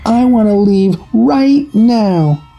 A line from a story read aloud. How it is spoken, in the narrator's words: She let out a shriek and told her boyfriend